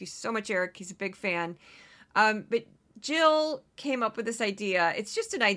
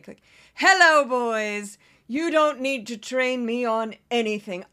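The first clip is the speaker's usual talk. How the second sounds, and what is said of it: Imitates another person's voice. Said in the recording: “this is my impression of Carrie Lake”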